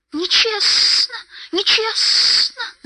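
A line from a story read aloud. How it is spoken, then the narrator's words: Hissing. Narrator (Russian): зашипел он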